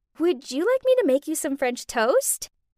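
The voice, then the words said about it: Cute, sweet voice. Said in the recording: “in my cutest voice”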